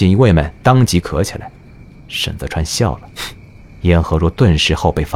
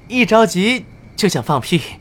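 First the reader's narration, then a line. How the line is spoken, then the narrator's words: Shy laugh. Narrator (Chinese): 羞涩一笑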